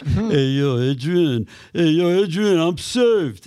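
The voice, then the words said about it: Impersonation of a movie boxer character. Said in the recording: “impersonations of Rocky going to church ... I would sing and do all these impersonations”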